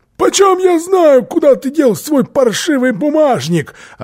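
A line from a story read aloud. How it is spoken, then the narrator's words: Shouting. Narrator (Russian): Филли закричал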